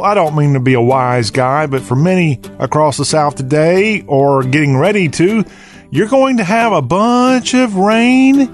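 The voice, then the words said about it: Southern American accent. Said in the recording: “talk with a Southern accent.”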